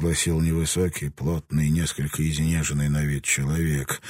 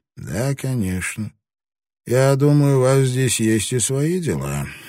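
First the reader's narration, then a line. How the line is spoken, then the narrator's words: Dry inquiry. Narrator (Russian): сухо осведомился Агаки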